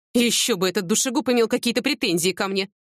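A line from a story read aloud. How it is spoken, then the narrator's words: Scornful snort. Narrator (Russian): фыркнула Любовь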